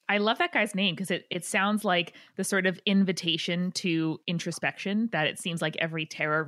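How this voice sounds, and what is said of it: Usual voice. Nothing is said of it.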